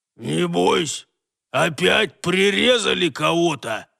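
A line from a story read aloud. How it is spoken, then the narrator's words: Old man's dead-voiced blurt. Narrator (Russian): шваркнул своим убитым голосом один из побиравшихся рядом стариков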